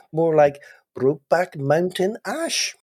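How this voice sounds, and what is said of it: Attempted Welsh accent. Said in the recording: “trying to do an Welsh accent ... was that Welsh or Pakistani? ... It was neither.”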